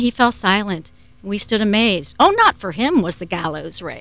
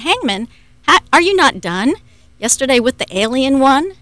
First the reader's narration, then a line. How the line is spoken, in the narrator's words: we cried